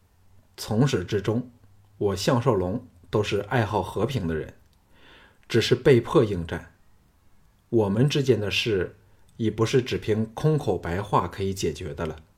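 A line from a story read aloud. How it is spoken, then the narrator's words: Calm, detached. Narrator (Chinese): 项少龙淡淡的说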